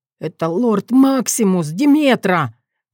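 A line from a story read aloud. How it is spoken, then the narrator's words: Hissing. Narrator (Russian): прошипел мужчина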